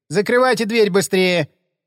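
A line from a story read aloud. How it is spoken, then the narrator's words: Sharp shout, woman. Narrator (Russian): прикрикнула на нас стоявшая за прилавком тетка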